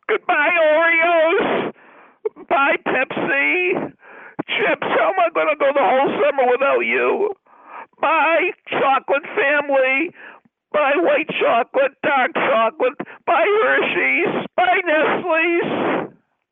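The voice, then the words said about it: Yelling goodbyes. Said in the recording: “you're yelling”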